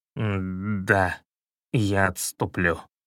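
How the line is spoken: Hoarse wheeze, wild cat. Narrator (Russian): прохрипел дикий кот

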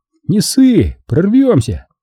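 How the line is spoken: Brisk, cheerful declaration. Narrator (Russian): Вася бодро заявил

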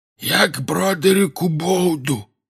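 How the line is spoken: Hoarse wheeze. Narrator (Russian): просипел он

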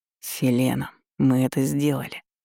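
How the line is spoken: Whispered in ear. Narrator (Russian): прошептал Лесницкий ей на ухо

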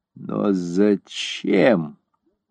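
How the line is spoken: Forced out with difficulty. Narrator (Russian): наконец выдавила она из себя

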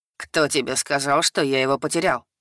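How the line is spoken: Smirking grunt. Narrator (Russian): Хмыкнул Атригис

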